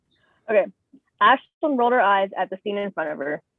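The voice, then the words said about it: Polished podcast-style narrating voice. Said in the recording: “put on my best podcast voice.”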